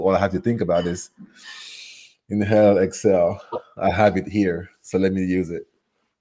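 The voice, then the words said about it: Cameroonian French-influenced English accent. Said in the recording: “beautiful accent ... my accent is from Cameroon, which is geographically in West Africa. So my first language is French”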